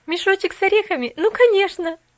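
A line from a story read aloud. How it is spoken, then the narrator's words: Laughing. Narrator (Russian): засмеялась Поллианна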